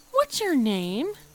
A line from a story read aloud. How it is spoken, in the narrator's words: Kiki asked cheerfully